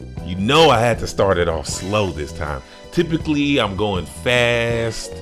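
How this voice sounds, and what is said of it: Usual voice. Nothing is said of it.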